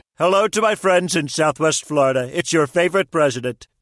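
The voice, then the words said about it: Celebrity impersonation voice. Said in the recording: “Celebrity voice impersonation.”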